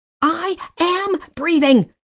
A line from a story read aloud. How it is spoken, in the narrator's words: screamed